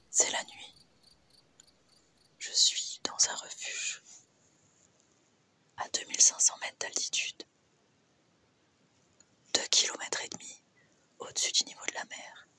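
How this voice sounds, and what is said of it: Whispering. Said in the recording (French): “Je sais pas trop pourquoi je chuchote”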